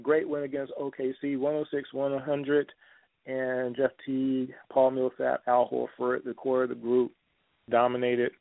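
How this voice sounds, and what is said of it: Hoarse, strained voice. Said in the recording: “I'm losing my voice, folks.”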